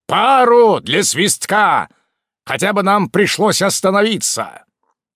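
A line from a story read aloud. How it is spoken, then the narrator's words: Barked in unison. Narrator (Russian): Мы рявкнули еще раз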